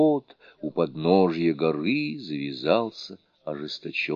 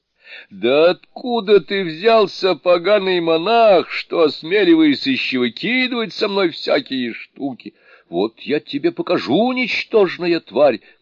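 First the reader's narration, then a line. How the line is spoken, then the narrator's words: Shouting. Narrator (Russian): крикнул Мокша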